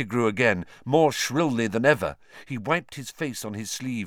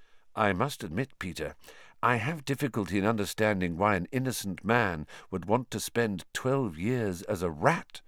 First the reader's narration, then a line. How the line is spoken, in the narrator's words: said Lupin evenly